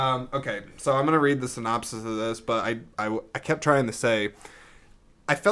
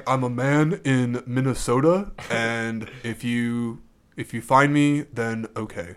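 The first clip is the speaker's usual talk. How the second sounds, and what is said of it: Imitates another person's voice. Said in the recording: “that's your impression”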